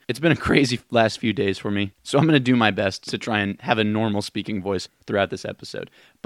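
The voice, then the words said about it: Rough, strained voice. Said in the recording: “my voice sounds a little rough today”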